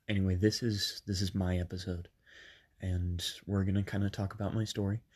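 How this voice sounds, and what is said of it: Sick-sounding voice. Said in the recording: “I'm a little bit sick ... I'm a little bit sick, so I'm sorry that my voice is going to kind of change as you listen to these.”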